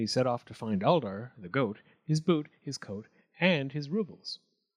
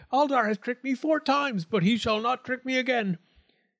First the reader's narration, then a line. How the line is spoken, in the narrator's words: the Goatman shook his fist and cried